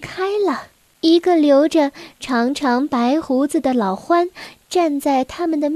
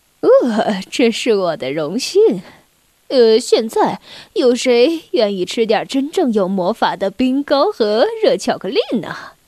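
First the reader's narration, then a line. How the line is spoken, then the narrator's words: Smiling reply. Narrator (Chinese): 圣诞老人微笑着回答说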